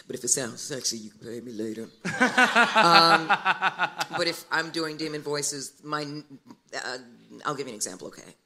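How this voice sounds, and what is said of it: Raw, rough-sounding voice. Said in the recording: “so my voice is really raw. That's why I sound this way.”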